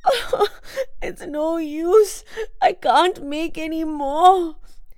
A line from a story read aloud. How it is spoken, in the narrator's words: she said tearfully